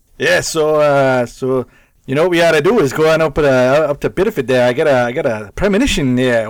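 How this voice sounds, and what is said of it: Put-on Maine Biddeford accent. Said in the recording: “Biddeford has like a specific type of person that comes from that location ... somebody with that accent and like that demeanor”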